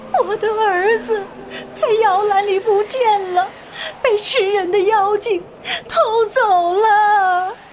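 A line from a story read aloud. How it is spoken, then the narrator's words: Woman crying. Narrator (Chinese): 那女人哭道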